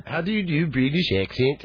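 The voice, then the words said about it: Poor attempt at British accent. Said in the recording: “your British accent ... That wasn't even close. ... You've made up a new country. That's from like Blagrovia or something.”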